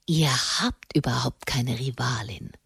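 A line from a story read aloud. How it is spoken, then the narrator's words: Hoarse whisper. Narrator (German): flüsterte heiser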